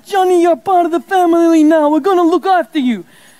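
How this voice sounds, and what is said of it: Mafia Godfather-style impersonation. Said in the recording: “my very excellent Godfather impersonation”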